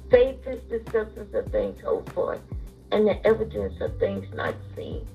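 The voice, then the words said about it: Tired, strained voice. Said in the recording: “sorry about my voice. ... I am really, really tired in my voice”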